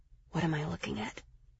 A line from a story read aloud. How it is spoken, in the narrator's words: I whispered